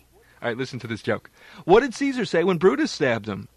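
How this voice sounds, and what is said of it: Imitates another person's voice. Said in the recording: “my impersonation of you is so good ... you have the tone quality down pretty well, and the inflections aren't too bad”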